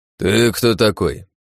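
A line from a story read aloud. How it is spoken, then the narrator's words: Grumbling man. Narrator (Russian): проворчал мужик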